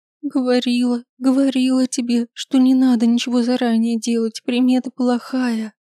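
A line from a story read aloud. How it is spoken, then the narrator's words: Groan. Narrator (Russian): простонала Василиса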